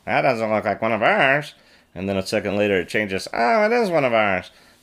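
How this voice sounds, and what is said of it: Imitates a droid's voice. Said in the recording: “Was that a good imitation? ... That was a perfect imitation.”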